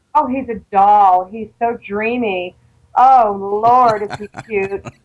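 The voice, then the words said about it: Put-on Southern US accent. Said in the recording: “I see she's in character... Get rid of the southern accent”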